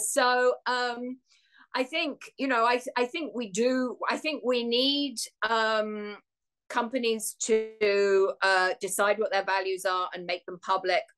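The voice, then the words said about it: English accent. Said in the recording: “you have an English accent ... I'm sorry about my accent.”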